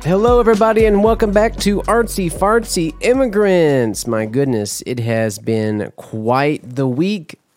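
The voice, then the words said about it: Voice deeper than usual, slightly hoarse. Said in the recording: “my voice is a little deeper than usual, but it's not so bad”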